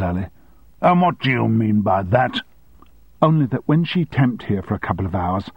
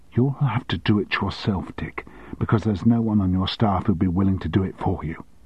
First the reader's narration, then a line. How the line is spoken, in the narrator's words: she said calmly